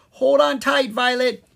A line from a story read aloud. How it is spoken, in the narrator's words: he cried